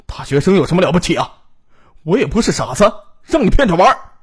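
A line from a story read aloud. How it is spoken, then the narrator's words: Angry shouting. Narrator (Chinese): 秦兵气愤的在他们背后大喊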